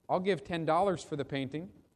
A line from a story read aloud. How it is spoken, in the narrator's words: she said